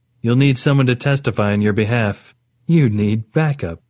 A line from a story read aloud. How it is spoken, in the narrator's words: Orit said, with what was almost a laugh